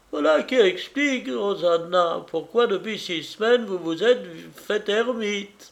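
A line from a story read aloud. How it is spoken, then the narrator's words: Exclaimed. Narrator (French): s'exclame Tante Suzanne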